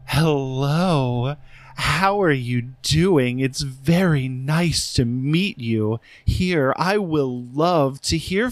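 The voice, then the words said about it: Sexy put-on female voice. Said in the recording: “do your lady voice ... I've been working on a lady voice ... It's very sexy, though.”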